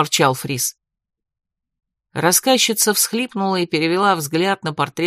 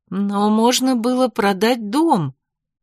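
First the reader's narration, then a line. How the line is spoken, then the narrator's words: Uncertain suggestion. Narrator (Russian): неуверенно предположила Корнелия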